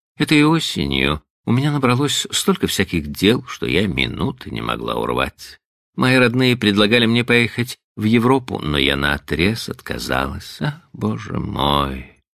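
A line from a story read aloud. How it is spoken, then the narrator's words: Sighed. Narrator (Russian): вздохнула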